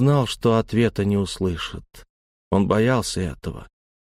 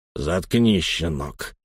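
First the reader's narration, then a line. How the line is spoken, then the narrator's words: Growling. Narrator (Russian): рыкнул Лаум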